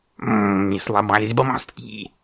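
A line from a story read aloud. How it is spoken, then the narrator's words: Raven grumbling. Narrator (Russian): пробурчал ворон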